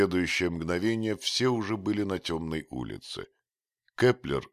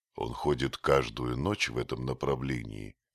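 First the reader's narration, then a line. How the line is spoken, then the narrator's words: Whispered question. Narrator (Russian): шепотом спросил Дик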